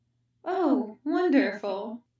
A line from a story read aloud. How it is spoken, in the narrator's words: Kenobi muttered